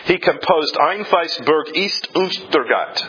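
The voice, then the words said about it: Terrible German accent. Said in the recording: “I don't know if you speak German. If you did, you know that was a terrible accent.”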